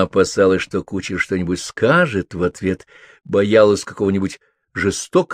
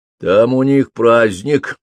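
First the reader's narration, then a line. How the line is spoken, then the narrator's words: Grumbled. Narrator (Russian): проворчал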